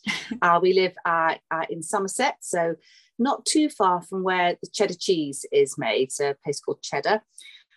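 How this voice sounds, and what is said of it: British English accent. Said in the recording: “UK based. You can probably tell by my accent.”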